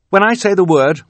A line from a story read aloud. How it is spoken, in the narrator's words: Violet said